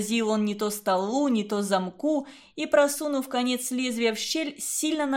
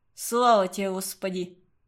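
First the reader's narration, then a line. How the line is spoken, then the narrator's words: Hoarse wheeze. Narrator (Russian): прохрипел Уваров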